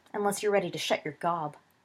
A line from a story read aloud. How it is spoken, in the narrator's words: said testily